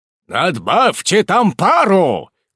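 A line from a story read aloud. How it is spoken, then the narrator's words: Shouted order. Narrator (Russian): крикнул капитан механику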